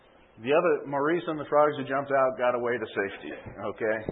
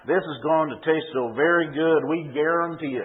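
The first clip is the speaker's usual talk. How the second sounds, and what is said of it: Put-on Louisiana Cajun accent. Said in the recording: “in a Louisiana Cajun accent, which I can't pronounce”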